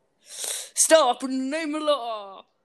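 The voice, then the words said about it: Poor impression of a character voice. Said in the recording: “attempt to do the voice of a character from Stranger Things ... That's so bad.”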